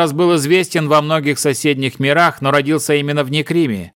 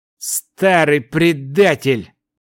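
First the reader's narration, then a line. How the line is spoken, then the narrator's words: Angry through gritted teeth. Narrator (Russian): гневно процедил владыка сельфов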